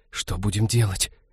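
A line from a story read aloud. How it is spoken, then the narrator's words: Whispered. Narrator (Russian): прошептала Ивета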